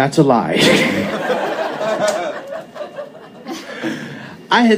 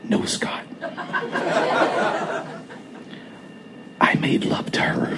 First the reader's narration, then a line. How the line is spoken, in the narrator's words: In a very calm, quiet voice, almost a whisper, I responded